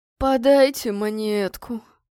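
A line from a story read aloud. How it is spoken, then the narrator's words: Bleating wail. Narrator (Russian): снова заголосил козлиным голосом бродяга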